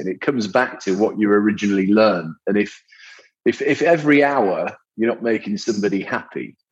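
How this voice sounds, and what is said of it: Northern English accent. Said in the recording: “as you can probably tell by my accent for those listening in the UK. I grew up in the north of England”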